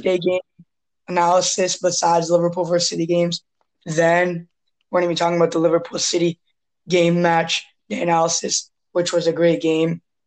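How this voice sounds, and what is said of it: Strained, weak-sounding voice. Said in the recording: “my voice is bad today. Like I've been having some asthma problems recently. So if you hear me cough and stuff, then and lose my voice”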